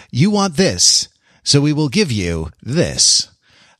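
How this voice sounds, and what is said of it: Slight announcer voice. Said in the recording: “the slight announcer voice that I do for the titles”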